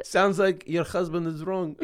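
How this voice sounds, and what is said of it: Put-on Eastern European accent. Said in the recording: “we can make that accent because you're Ukrainian ... we're good at these accents ... It does sound like Gru.”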